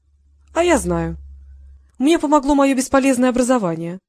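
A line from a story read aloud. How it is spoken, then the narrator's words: Speaking, then laughing. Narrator (Russian): проговорила она, а потом рассмеялась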